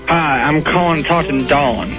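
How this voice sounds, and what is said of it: Fake put-on accent. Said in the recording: “stop the fake accent ... you're not stopping the fake accent”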